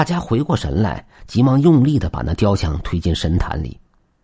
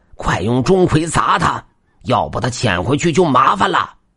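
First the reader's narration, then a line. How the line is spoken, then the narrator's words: Urgent shouting. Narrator (Chinese): 张法师就呼喊着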